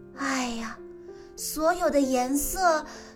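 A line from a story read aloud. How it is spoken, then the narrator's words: Sighing. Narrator (Chinese): 艾薇不由得叹了一口气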